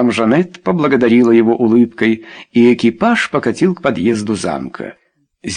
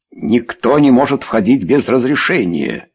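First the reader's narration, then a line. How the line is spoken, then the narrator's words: Angry. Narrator (Russian): сердито сказал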